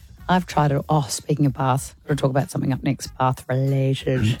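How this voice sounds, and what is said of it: Hoarse, partly lost voice. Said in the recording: “Sorry, my voice. Yeah. My voice isn't back.”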